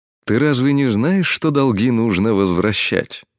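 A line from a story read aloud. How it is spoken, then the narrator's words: Friendly, lazy tone. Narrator (Russian): Доброжелательным тоном, слинцой в голосе, проговорил Крас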